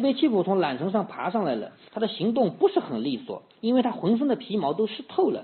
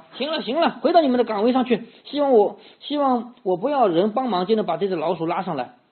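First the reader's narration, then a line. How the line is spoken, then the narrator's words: Shouting. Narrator (Chinese): 对水手水手们喊道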